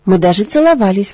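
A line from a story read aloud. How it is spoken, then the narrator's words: Defiant exclamation. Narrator (Russian): воскликнула Элла с вызовом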